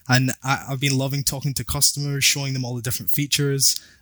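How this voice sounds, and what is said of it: Scottish accent. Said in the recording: “my Scottish accent gets a bit out of hand, when I get a bit passionate ... I love your accent”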